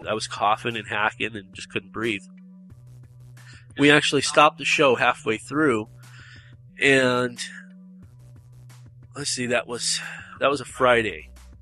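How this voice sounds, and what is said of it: Slightly nasal, congested voice. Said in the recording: “hear the change in my voice ... I'm still a little nasally because I still have congestion”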